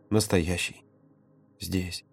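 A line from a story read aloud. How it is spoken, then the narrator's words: Muffled, barely voiced whisper. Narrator (Russian): Володя вжался лицом в его плечо и прошептал одними губами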